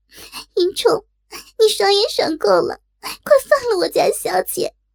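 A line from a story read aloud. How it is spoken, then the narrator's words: Anguished tearful crying. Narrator (Chinese): 苦不堪言，急得眼圈也红了，跺脚哭道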